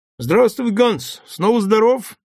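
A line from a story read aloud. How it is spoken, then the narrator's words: Cheerful. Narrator (Russian): весело говорю я ему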